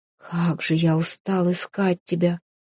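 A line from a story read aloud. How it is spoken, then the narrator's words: Quiet. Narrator (Russian): тихо сказал он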